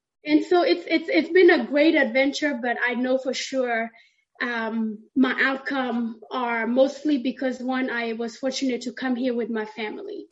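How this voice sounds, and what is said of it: Southern US accent. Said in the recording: “my accent, it's a little myth ... People tell me I sound like a girl from the South”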